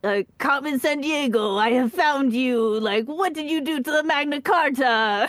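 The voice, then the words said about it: Bad exaggerated French accent. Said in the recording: “this terrible terrible attempt at a french accent”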